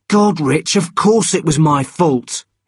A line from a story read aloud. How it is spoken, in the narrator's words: he shouted